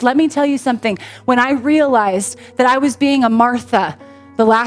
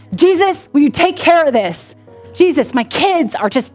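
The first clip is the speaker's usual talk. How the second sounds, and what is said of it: Angry praying voice. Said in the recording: “in my angry prayer voice ... that's my angry prayer voice”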